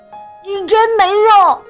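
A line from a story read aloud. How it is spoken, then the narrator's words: Frustrated angry shout. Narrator (Chinese): 詹妮很沮丧，生气的冲着玩具搅拌机大喊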